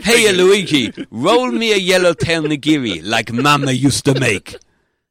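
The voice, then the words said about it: Put-on Italian accent. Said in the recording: “That's my Italian. ... accent.”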